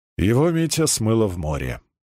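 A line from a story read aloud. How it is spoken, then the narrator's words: Glum admission. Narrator (Russian): уныло признался Баландин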